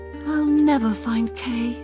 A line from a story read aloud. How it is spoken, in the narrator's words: she sighed